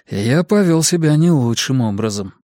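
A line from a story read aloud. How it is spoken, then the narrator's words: Sighing. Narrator (Russian): вздохнул Даниэль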